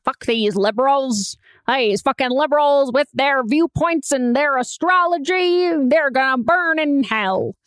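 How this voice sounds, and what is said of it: Put-on accent. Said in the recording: “What was that accent?”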